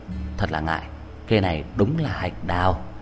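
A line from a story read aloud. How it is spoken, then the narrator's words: Soft apologetic. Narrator (Vietnamese): Tử Kiện có lỗi, nói khẽ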